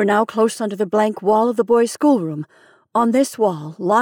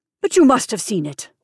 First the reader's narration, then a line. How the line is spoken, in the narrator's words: I exclaimed